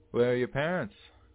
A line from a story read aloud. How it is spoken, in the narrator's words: he yells down to us